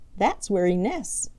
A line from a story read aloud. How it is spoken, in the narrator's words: chuckled Skimmer